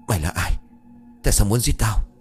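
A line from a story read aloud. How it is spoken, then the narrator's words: Panting, harsh voice. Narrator (Vietnamese): Anh ta thở hổn hển gằn giọng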